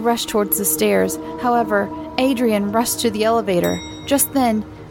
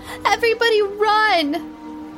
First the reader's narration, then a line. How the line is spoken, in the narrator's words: Sammy screamed